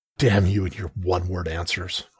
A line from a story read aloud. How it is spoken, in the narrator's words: I growled